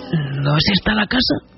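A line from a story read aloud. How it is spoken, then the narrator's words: Man murmuring. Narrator (Spanish): murmuró el hombre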